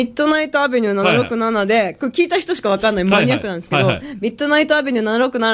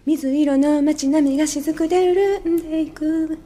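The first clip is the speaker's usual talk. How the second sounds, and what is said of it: Imitates another person's voice. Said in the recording (Japanese): “新しいモノマネレパートリーあります...上市香真理が1曲目を歌い出した時の実況中継をする戸田アンナ”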